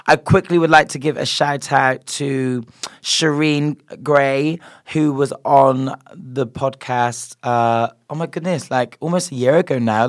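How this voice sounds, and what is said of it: Voice still sounds sick, wild. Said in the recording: “I was sick last week, which wasn't good, and you can obviously still hear my voice sounds wild.”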